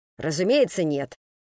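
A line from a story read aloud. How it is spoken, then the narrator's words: Angry toy seller answering. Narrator (Russian): сердито ответил торговец игрушками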